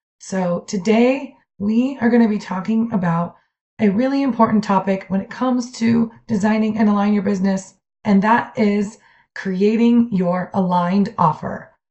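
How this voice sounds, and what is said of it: Weak, breaking-up voice. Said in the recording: “my voice has been a little bit gone, actually, for the last couple of weeks... my breaking up voice”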